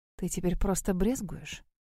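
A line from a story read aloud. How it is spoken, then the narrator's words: Hoarse whisper. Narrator (Russian): севшим голосом прошептала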